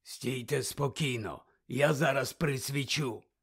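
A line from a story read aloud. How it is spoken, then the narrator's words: Whispered. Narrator (Ukrainian): прошепотів Муді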